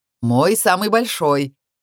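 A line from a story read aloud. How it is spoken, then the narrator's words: Guffawing. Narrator (Russian): хохотал Каил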